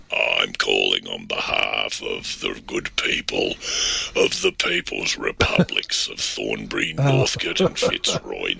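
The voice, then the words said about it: Put-on voice with heavy vocal fry. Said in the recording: “The vocal fry. ... do you have to put that voice on?”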